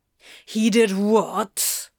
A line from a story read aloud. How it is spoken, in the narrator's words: Crowley snarled